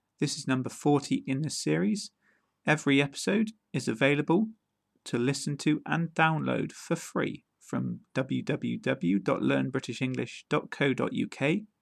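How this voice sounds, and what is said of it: British accent. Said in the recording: “This was a British accent podcast”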